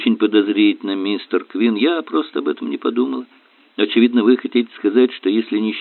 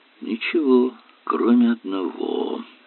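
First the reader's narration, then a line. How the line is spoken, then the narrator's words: Muttered. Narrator (Russian): пробормотал Эллери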